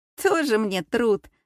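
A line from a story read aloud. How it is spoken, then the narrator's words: Snorted. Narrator (Russian): фыркнула Кристина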